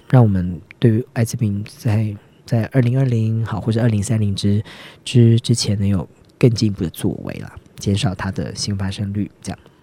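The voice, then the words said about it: Voice growing quieter and softer. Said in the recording (Chinese): “你的声音越来越小声”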